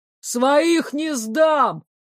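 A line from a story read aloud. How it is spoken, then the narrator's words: Emboldened shout. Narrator (Russian): осмелев, выкрикнул из-за спины короля Шлейх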